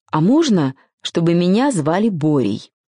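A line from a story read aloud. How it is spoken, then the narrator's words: Timid little star asking. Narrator (Russian): звездочка робко спросила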